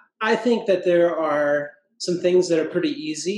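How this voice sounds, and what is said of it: Usual voice. Nothing is said of it.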